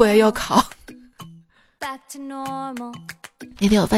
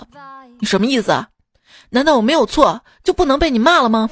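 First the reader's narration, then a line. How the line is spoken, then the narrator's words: Angry. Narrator (Chinese): 我怒道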